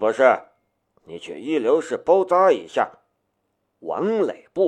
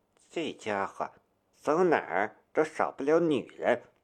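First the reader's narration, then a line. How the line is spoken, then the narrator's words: Quiet frowning mutter. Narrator (Chinese): 龙兵眉头顿时皱了一下，小声的嘟囔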